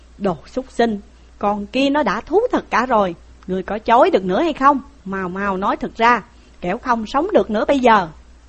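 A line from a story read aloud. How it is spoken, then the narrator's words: Furious shout. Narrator (Vietnamese): Dương Hùng quát lên rằng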